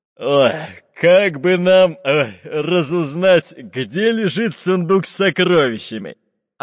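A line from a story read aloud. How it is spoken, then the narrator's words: Deep bass voice. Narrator (Russian): пробасил толстый пират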